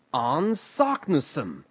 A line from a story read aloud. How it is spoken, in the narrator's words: he cried in triumph